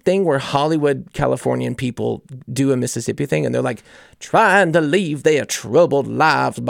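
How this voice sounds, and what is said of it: Usual voice. Nothing is said of it.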